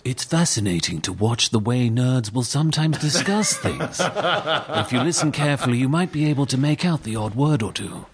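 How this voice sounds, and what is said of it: English accent, narrator-like delivery. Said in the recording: “Did you get Land of the Lost in England? ... your accent makes you an automatic narrator to any situation”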